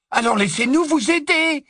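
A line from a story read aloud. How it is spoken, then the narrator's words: Angry exclaiming. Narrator (French): s'exclama Neville avec colère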